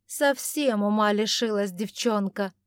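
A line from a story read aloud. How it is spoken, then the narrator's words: Angry grumbling. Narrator (Russian): сердито пробурчала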